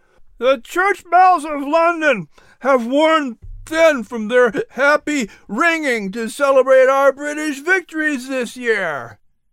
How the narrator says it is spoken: shouted above the noise in the tavern

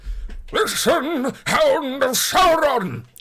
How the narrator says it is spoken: he cried

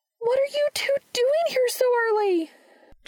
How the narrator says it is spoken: Charlie shouted

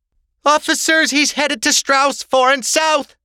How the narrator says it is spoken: the woman screamed

